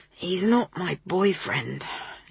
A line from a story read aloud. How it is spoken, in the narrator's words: she rasped